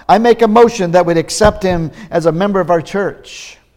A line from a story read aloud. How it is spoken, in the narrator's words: one of the deacons yells out